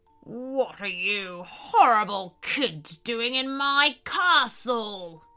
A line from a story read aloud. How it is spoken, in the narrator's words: growled a voice from behind them